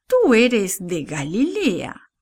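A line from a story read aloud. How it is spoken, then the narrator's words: Plain. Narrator (Spanish): dijo alguien más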